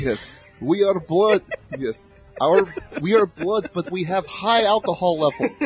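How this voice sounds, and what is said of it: Put-on Russian accent. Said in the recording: “How about Russian? ... what does a Russian accent?”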